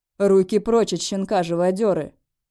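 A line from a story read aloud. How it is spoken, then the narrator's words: Through teeth, suppressed growl. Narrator (Russian): Цежу, еле сдерживая рычание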